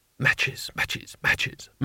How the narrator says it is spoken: madly to himself under his breath

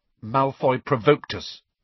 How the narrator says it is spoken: said Harry stiffly

